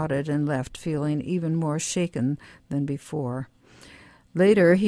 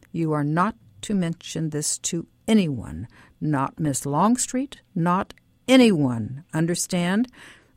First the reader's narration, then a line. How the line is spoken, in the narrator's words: he interrupted me saying sharply